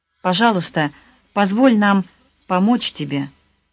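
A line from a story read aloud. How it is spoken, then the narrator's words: Plain. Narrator (Russian): сказала она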